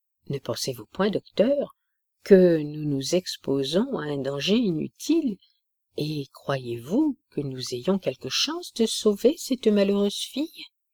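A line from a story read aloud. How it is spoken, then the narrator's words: Old soldier stammering. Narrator (French): balbutia le vieux soldat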